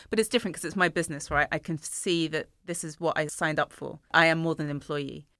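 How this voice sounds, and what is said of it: Tired, exhausted-sounding voice. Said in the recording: “I'm kind of exhausted, as you can probably tell from my voice.”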